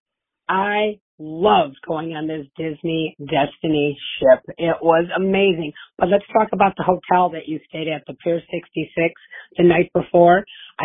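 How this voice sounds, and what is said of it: Hoarse, strained voice. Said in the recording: “I screamed so much I woke up with laryngitis... I'm sorry if my voice is annoying”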